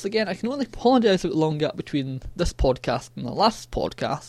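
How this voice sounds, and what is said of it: Scottish accent. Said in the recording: “my annoying Scottish accent”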